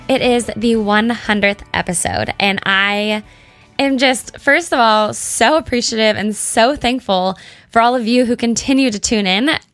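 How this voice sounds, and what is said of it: Excited, smiling voice. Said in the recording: “hear the excitement in my voice or hear the smile I have on my face”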